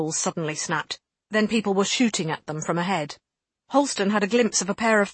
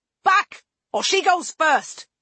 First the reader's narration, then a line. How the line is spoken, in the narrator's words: he yelled